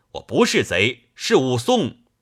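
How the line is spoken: Shouting. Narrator (Chinese): 武松叫道

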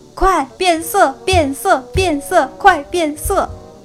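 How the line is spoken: Sad, while running. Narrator (Chinese): 哈瓦尔伤心地一边跑一边说

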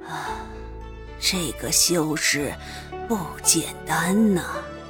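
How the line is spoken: Muttering to himself. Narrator (Chinese): 巫族族长却不答，喃喃自语的道

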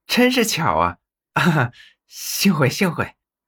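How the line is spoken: Embarrassed laugh. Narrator (Chinese): 许二 不好意思的 笑道

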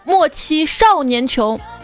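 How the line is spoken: Angry shout. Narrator (Chinese): 很多人都会愤而大喊一声

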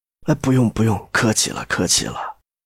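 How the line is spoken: Dazed mumbling. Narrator (Chinese): 一时还没怎么回神，只喃喃说

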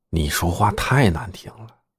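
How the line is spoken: Low voice. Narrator (Chinese): 小林低声对曼丽说

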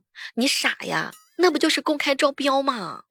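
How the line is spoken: Shouting. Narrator (Chinese): 囧哥哥大喊了一声

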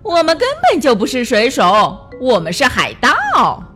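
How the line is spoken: Sailors mocking. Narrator (Chinese): 水手们都嘲笑他

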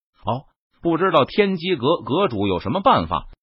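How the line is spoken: Plain. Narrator (Chinese): 轩辕家族族长问道

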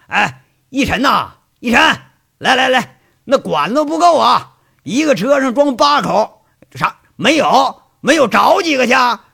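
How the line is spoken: Shouting. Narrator (Chinese): 喊着

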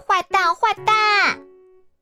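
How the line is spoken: Angry yell. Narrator (Chinese): 艾斯生气了，对着妈妈大叫

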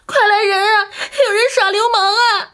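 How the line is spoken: Screaming at top of voice. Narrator (Chinese): 扯着嗓子叫喊

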